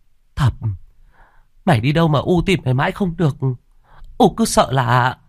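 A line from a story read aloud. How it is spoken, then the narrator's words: Panicked. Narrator (Vietnamese): nói bằng giọng hoảng hốt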